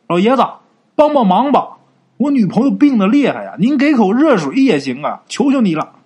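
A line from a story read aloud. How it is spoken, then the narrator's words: Urgent shout, pounding door. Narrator (Chinese): 李朝宁啊，这时候赶紧拍门就喊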